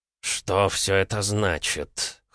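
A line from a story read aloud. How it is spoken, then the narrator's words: Hoarse question. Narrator (Russian): хрипло спросил Макферсон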